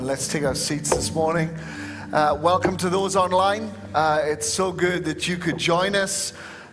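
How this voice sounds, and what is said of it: Tasmanian Australian accent. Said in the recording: “as you can tell by my accent, I'm from Tasmania”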